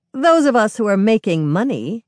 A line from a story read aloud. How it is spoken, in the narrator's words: Carmen sneers